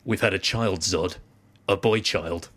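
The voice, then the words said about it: Russell Crowe impression. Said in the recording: “my Russell Crowe impression.”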